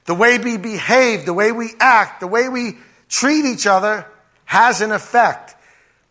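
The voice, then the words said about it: New Jersey accent. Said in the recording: “where do I get this joisy accent? From the people I'm around.”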